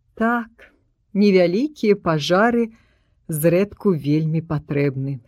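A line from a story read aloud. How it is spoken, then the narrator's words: Plain. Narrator (Belarusian): сказаў ён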